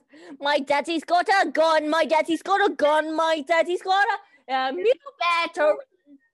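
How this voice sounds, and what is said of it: Put-on unidentified accent. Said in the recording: “I don't know what accent that was.”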